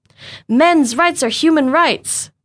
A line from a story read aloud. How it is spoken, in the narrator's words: Crispin cried